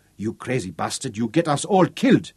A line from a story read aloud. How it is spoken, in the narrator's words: he snarled into Roland's face